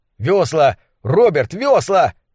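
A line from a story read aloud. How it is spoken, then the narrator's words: Yelled. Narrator (Russian): заорал я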